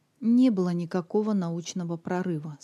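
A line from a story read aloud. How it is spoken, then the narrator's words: Dejected. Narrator (Russian): сказал он уныло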